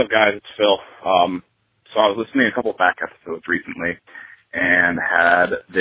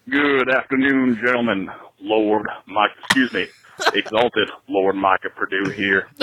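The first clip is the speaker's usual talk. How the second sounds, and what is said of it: Impression of podcast co-host. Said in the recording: “my best Micah impersonation”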